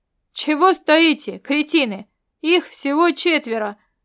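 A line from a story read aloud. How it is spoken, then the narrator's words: Angry yell. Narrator (Russian): заорал ожилеец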